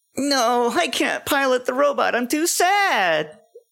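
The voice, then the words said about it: Sad anime boy character voice. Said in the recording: “let's hear your best Shinji impression ... That's beautiful.”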